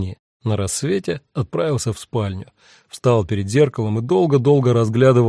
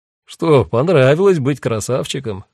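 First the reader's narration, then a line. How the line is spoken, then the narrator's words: Laughing. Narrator (Russian): рассмеялся Сайрус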